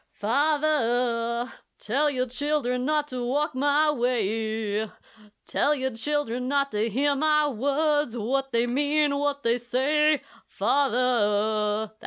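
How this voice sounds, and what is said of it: Sung imitation of another person's voice. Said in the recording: “my Danzig impression. It's not very good ... It's very good ... It's the best Danzig impression that's ever been on this show.”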